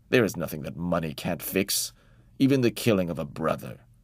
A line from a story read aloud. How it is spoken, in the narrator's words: Uncle snapped